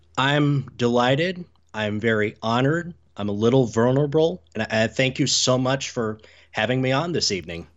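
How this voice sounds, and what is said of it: American accent. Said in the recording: “your accent that you are from the USA”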